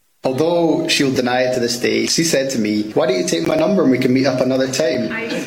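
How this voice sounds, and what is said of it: Scottish accent. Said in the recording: “This guy is a groom in Scotland. I don't know if the accent makes it better. I feel like the accent makes it better, and maybe some of the slang does.”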